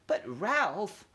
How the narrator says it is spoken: quavered Aunt Sissy

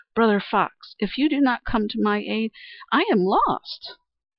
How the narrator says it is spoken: she exclaimed

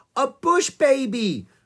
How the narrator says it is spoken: cried Annie

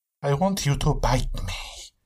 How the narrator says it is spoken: she whispered in his ear

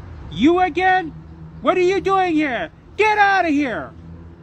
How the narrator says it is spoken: she raised a rolling pin at Dorothy and shouted

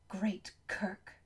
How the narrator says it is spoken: hissed Valentine

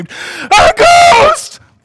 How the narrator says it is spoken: the disciples were terrified and screamed

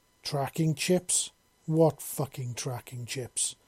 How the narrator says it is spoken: she asked

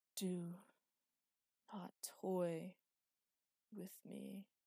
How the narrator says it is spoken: it said, breathing labored and rasping

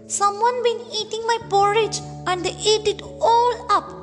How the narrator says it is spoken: cried the baby bear

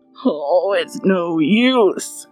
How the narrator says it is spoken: he groaned

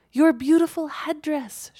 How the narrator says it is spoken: she cried out

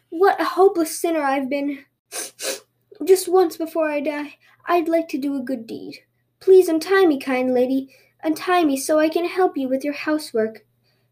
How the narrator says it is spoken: he sobbed

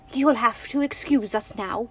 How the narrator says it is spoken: crowed excitedly

